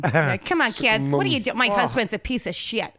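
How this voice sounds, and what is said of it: Exaggerated American soccer mum accent. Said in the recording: “She picked the worst American accent to replicate... The worst, the biggest cunt of an accent, like a little bitch of a mother, you know, like a soccer mum.”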